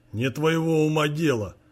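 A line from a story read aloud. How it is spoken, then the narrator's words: Gruff old man. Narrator (Russian): грубо ответил дед Михаилу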